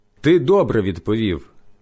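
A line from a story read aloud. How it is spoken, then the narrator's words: Plain. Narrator (Ukrainian): сказав Ісус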